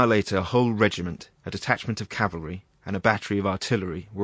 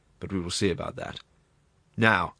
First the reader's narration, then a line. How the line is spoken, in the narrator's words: added in a stern tone